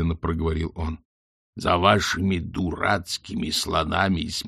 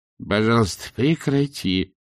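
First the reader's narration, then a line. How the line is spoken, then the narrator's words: Moaning. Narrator (Russian): простонал Ринсвинд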